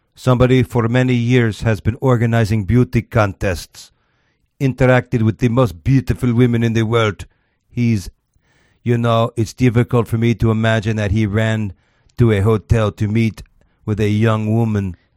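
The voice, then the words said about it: Accented impression of Putin. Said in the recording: “This is the best accent I've ever heard.”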